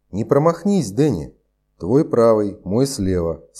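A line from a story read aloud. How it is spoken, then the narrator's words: Plain. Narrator (Russian): сказал Кэп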